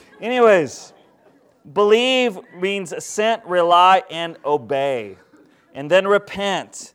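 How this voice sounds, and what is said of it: Usual voice. Nothing is said of it.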